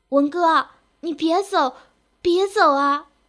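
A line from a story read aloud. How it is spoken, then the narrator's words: Grief-stricken cry. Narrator (Chinese): 一声满含悲伤的哭叫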